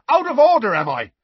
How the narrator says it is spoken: shouted Seamus

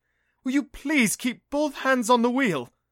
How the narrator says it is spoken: yelped as the cab almost rear-ended a bus

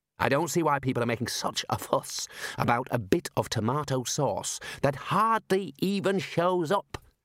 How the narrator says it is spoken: muttered the dean

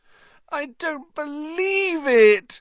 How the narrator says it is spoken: Hermione wailed

